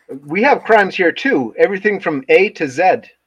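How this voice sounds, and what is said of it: Put-on Canadian accent. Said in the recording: “Good job on the Canadian accents”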